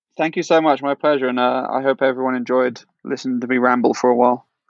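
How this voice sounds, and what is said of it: British accent. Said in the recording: “have a British accent for a change”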